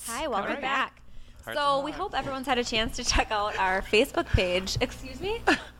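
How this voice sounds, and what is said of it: Strong Minnesota accent. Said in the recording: “I have a really, really strong Minnesota accent ... Yeah, you do. ... Everyone in California was obsessed with your accent. ... very Minnesotan”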